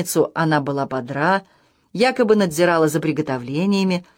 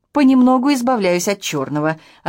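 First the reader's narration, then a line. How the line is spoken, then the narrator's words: Joyful report. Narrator (Russian): радостно доложила Армандо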